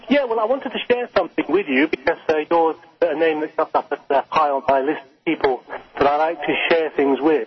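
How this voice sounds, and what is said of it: Fake put-on accent. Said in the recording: “fake accent”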